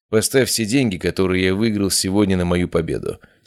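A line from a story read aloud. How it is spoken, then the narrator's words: Calm. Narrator (Russian): сказал я спокойно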